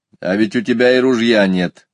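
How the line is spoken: Plain, a boy. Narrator (Russian): ответил мальчик

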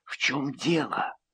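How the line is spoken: Whispered. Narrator (Russian): прошептала она

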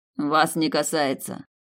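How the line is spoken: Dry curt retort. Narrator (Russian): сухо отрезал он

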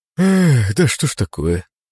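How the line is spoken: Sighing. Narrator (Russian): вздохнул Синицын

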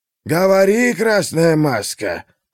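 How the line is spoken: Old man's booming voice. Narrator (Russian): прогудел старец

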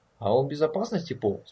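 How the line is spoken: Calm question. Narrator (Russian): спокойно спросил Форест

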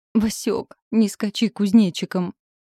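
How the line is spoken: Moaning. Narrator (Russian): простонал муж

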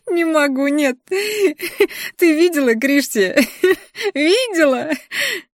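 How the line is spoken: Cackling laughter. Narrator (Russian): Хохотала эта мерзость

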